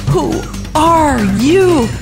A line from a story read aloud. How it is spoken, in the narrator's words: yelled